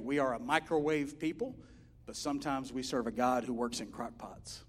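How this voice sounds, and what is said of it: Regional accent, 'crock' sounds like 'crack'. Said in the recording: “you might have understood that a wrong way if you heard my accent. Might have thrown you off. I didn't say he works in crackpots”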